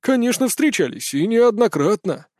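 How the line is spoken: Joyful reply. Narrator (Russian): радостно ответил Павел

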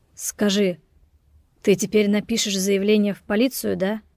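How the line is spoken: Crushed, dejected question. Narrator (Russian): Спросил он убитым голосом

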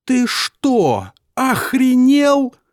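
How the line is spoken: Shout. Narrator (Russian): закричала Элли

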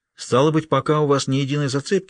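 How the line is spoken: Forced calm question. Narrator (Russian): спросил Халварсон, пытаясь дышать спокойно и ровно

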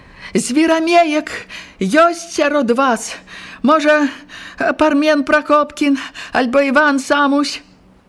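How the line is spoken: Loud question. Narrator (Belarusian): Варка Касперукова гучна спытала

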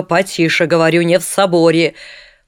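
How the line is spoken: Loud and stern. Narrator (Russian): говорит уже громко, строго

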